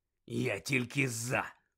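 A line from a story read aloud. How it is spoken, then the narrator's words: Growling. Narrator (Ukrainian): прогарчав Дикозор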